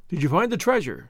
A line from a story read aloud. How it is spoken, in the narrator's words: the brigand asked eagerly